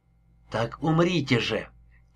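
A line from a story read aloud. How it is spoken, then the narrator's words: Quiet female voice. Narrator (Russian): тихо проговорила она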